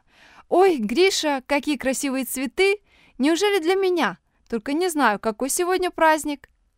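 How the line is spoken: Joyful exclamation. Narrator (Russian): Оля, увидев цветы, радостно заулыбалась и воскликнула

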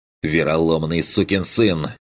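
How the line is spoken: Helplessly furious hiss. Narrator (Russian): с бессильной яростью прошипел Бруно

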